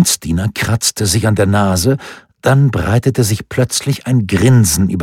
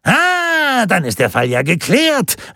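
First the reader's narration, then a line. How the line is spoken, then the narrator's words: Triumphant call. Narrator (German): rief triumphierend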